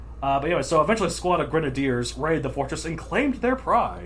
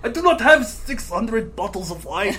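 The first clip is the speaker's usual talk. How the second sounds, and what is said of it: French accent drifting toward Russian. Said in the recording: “Again, I'm going more Russian. I used to be so good at my French accent.”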